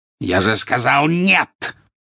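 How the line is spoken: Harsh bark. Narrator (Russian): рявкнул жестоколицей

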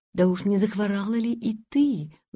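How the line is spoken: Tender question. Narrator (Russian): ласково спросила она

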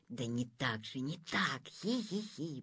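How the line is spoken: Giggling hiss in ear. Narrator (Russian): прошипел ей в ухо министр

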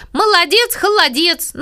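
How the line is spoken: Muffled shout from below. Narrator (Russian): Сережа сначала крикнул из-под стола

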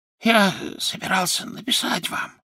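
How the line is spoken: Whisper. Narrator (Russian): зашептал он

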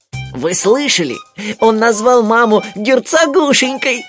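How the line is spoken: Giggling. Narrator (Russian): хихикнул Тулуз

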